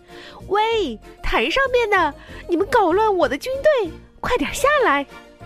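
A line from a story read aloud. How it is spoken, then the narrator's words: Shouting. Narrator (Chinese): 女王高喊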